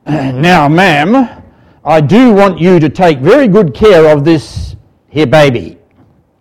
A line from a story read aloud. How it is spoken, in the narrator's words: that dodgy old man in a commanding voice said